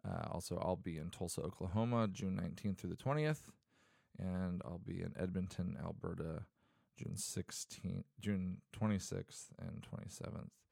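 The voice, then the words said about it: Sick, odd-sounding voice. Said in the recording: “sorry, I sound weird. I'm kind of sick right now.”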